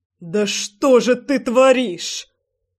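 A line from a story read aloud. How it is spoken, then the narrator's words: Roared. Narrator (Russian): Взревел Львовский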